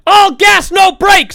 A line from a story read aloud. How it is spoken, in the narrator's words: screaming